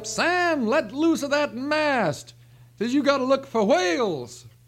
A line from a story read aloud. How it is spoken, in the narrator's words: The captain hollers up